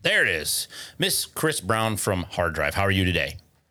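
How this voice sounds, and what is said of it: Polished announcer-style radio voice. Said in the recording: “I'm gonna tone down my radio voice now that we're just having a conversation.”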